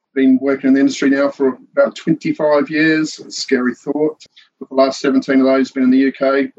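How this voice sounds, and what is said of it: New Zealand accent. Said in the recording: “previously that's New Zealand... the background and the accent... Yeah, it's a bit of a giveaway”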